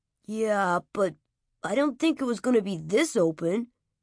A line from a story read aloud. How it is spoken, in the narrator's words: Sean grumbled